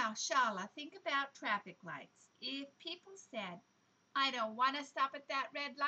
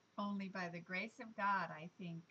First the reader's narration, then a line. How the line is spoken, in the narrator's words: sighed Mother